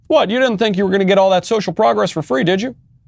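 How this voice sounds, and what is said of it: Obama impression drifting into Bill Clinton. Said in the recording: “I don't know what's going on with my impressions this week, but even my Obama's becoming a Bill Clinton.”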